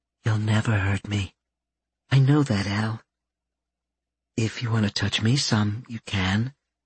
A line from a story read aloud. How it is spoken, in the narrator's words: Her words were just as soft as she whispered to him